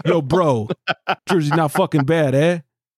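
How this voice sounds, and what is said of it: Put-on New Jersey accent. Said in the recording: “I don't know what accent that was. ... Sounds like our Boston accent.”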